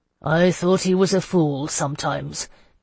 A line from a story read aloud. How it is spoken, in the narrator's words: Gaspar said gruffly